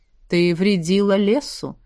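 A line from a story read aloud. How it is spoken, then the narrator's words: Regretful sigh, elf. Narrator (Russian): вздохнул эльф, с сожалением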